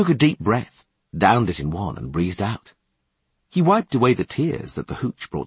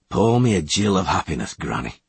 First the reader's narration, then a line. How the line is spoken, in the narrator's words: he demanded gloomily